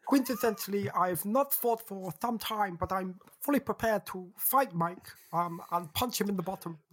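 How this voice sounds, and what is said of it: Chris Eubank impression with lisp. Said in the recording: “that accent ... but with a lisp ... it's bang on.”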